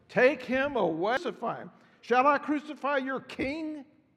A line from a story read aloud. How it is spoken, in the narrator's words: they shouted